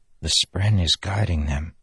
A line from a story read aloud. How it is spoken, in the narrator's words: Kaladin said under his breath